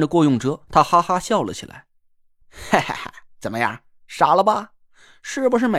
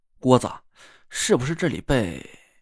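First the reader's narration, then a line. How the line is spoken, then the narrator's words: Hushed, lowered voice. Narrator (Chinese): 压低了声音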